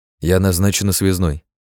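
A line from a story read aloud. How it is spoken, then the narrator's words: Dry, young woman. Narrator (Russian): сухо пояснила девушка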